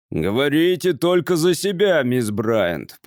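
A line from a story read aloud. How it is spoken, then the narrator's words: Growled. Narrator (Russian): прорычал представитель службы безопасности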